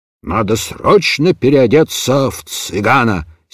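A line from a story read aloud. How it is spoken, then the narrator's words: Angry muttering. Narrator (Russian): сердито бормотал он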